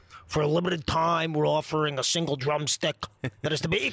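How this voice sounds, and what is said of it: Colonel Sanders-Bernie Sanders mashup impression. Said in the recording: “it was Bernie Sanders and it was Colonel Bernie Sanders”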